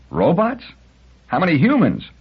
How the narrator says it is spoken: He cried

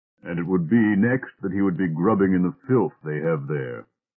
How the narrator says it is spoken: grumbled Elder

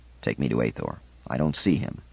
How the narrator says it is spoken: whispered

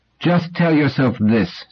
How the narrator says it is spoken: said Doris, her voice hard as rock

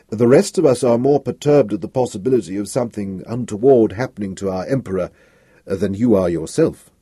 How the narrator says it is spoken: said Selden smoothly, slightly despising himself for the ease with which he had become able to flatter

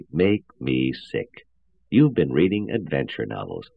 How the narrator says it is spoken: said Powell slowly

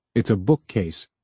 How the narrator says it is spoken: said Harlan

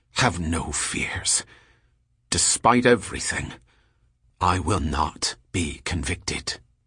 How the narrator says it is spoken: Gendebal said in an intense whisper

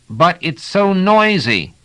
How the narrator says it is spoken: He had to shout to make himself heard

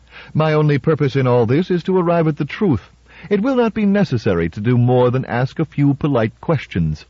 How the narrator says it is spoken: Defense said smoothly

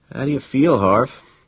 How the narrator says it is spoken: Funarelli groaned again

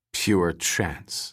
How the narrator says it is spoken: said Ponyitz bitterly

